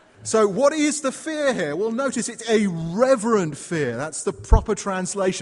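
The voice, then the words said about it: British accent. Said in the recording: “despite my accent. ... sending me back to the land of fish and chips”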